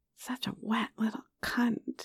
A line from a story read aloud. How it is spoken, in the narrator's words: he whispered, just loud enough for both of us to hear